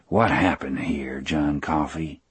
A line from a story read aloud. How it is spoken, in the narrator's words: McGee asked in his low, earnest voice